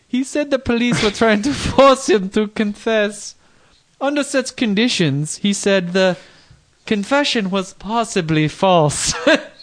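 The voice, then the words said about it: Put-on Dutch accent. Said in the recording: “what accent are you going for here? I'm thinking Czech Republic. ... Dutch. ... Niederlander.”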